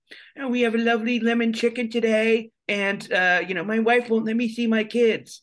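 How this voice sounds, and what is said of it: Imitates a caterer's voice. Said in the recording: “we would do an impression of this caterer, but him saying really dark things ... I just did that voice”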